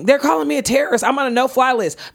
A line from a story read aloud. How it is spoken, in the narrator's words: this dude in the airport yelling